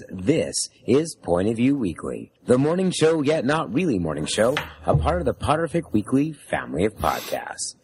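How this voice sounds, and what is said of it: Hoarse voice. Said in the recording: “as you can all tell with my hoarse voice”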